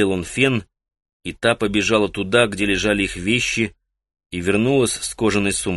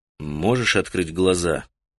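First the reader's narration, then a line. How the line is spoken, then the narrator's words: Soft question. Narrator (Russian): мягко спросил он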